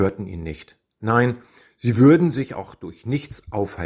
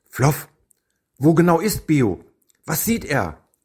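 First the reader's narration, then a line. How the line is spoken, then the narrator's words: Calling. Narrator (German): rief Ekat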